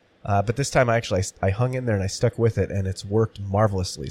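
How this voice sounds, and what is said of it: Voice still sounding unwell. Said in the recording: “as you can hear in my voice, I'm not fully back yet.”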